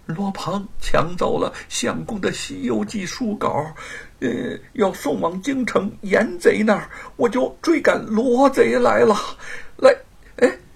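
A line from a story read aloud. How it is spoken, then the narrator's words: Anxious, weak voice. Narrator (Chinese): 玉凤神色转为焦虑，声音微弱的说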